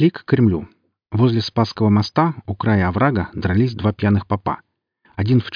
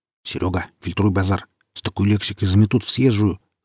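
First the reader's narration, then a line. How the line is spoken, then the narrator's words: Hiss. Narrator (Russian): зашипел я на Сергея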